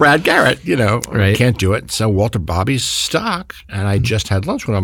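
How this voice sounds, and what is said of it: Usual voice. Nothing is said of it.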